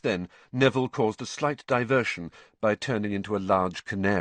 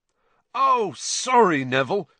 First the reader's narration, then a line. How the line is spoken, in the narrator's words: Fred shouted over all the laughter